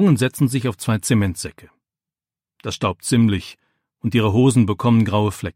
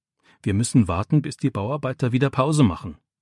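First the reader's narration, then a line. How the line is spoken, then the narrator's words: Plain. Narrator (German): sagt Micha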